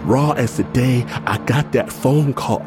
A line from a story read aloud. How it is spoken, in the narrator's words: I wail